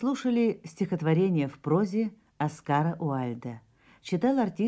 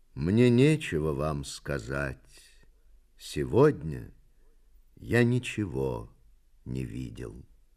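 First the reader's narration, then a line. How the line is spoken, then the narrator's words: Sad poet's reply. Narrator (Russian): поэт печально ответил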